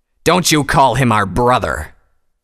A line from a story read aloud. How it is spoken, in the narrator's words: Tirado suddenly thundered